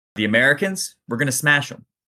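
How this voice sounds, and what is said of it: Put-on vaguely Philadelphian accent. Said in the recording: “if he sounded like a vaguely Philadelphian guy”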